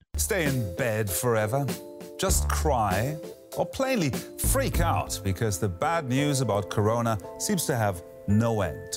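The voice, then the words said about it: British English accent. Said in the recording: “a guy with a British accent ... this guy with an English accent”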